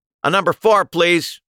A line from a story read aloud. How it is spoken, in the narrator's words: he shouted over his shoulder